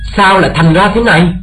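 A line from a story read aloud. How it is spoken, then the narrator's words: Shocked shout. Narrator (Vietnamese): họ lảo đảo hét lên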